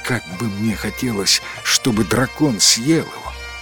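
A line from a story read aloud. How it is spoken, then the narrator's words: Several townspeople whispering. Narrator (Russian): несколько человек из жителей города прошептало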